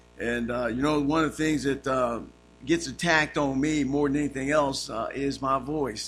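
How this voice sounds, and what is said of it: Raspy, hoarse voice. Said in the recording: “speak through this old raspy voice this morning”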